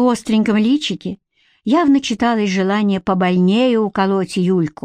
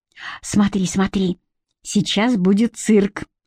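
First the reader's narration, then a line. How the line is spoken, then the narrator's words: Hushed whispering. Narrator (Russian): чье-то тихое перешептывание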